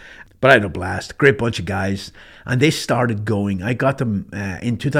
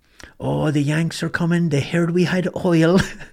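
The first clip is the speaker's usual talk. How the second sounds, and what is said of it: Attempted Irish accent. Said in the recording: “my best Irish accent. I can't do an Irish accent anymore”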